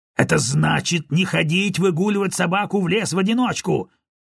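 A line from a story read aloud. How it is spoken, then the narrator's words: Barked. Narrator (Russian): рявкнул Гарднер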